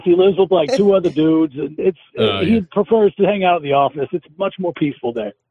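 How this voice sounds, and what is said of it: Strong distinctive accent. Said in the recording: “The accents on these men are amazing. ... Each one has a different accent.”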